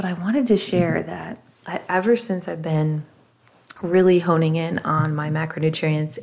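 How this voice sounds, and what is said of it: Tired-sounding voice. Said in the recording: “I'm not hitting that until about 8 o'clock at night. I don't know if you can hear it in my voice. I've hit it.”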